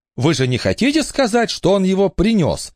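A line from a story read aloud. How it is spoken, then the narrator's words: Exclamation. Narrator (Russian): воскликнула Элинор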